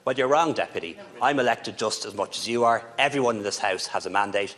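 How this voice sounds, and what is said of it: Dublin Irish accent. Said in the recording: “because I'm from Dublin ... because I don't talk the way you talk and I have the accent that I have”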